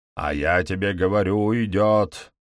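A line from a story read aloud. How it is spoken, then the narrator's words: Roaring reply. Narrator (Russian): проревел в ответ голос ряженого констебля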